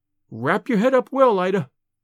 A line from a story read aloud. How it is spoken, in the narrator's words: she said anxiously